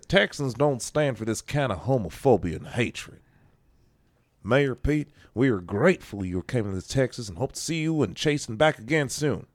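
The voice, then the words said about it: Bad put-on Texas accent. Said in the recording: “That was a bad Texas accent. ... That was a bad Texas accent. That was terrible.”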